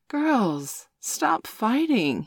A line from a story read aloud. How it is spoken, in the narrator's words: he pleaded